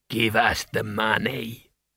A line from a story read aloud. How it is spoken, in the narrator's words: he rasped